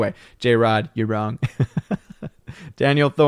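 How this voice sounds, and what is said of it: Usual voice. Nothing is said of it.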